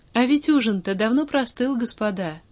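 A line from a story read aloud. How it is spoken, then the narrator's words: Carefree tone. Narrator (Russian): совершенно беспечным тоном произнес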